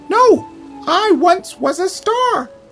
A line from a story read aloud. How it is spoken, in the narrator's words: exclaimed Littleton